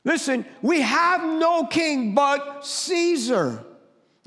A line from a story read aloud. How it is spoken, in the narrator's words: the leading priest shouted back